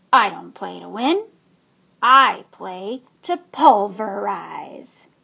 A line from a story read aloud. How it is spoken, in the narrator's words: Evan stood tall and said in that gravelly voice that all boys imitated